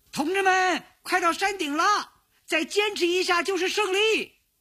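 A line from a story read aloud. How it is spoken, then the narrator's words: Loud shouting. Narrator (Chinese): 山顶上有人高声地喊着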